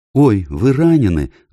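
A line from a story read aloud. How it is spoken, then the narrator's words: Exclaiming. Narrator (Russian): воскликнула Люся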